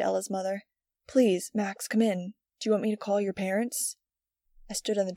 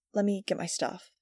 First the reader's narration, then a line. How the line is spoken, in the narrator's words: she said gently